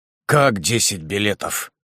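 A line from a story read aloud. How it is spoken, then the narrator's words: Confused muttering. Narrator (Russian): пробормотал он, не понимая в первую минуту, что она хочет этим сказать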